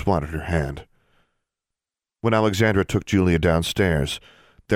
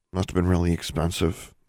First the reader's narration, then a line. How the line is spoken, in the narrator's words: Alexandra muttered